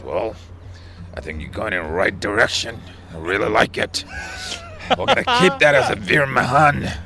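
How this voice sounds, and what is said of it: Imitates another person's voice. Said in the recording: “It's a good impression. It's a good impression as well”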